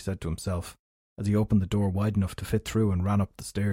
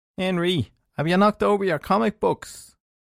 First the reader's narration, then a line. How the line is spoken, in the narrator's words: called out from behind